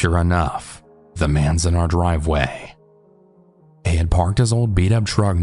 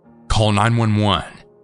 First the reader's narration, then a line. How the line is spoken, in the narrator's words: he firmly said